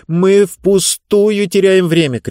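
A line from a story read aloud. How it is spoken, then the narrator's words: Shouted. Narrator (Russian): крикнула она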